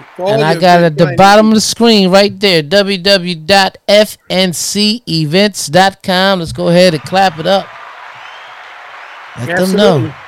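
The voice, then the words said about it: Game show host style delivery. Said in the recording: “why I'm talking like a game show host?”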